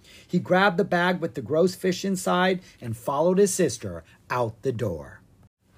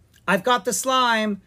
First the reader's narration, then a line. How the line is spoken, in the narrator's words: Ella called out